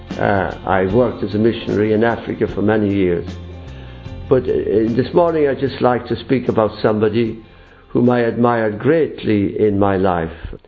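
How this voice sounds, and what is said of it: Irish accent. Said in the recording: “I am from Ireland, as probably you recognise with the accent”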